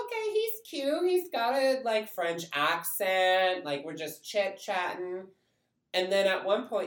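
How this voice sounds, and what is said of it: Usual voice. Nothing is said of it.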